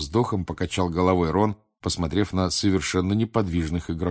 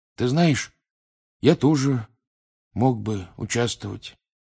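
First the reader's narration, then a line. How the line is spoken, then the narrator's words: Sleepy mumble. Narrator (Russian): сонно пробормотал Рон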